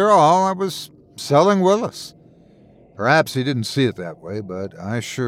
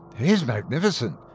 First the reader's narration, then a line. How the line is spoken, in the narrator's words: he breathed